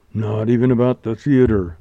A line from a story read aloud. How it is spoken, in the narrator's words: groaned Montgomery